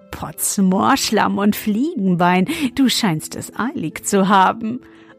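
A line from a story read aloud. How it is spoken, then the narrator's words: Laughing until choking. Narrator (German): lachte, bis er sich verschluckte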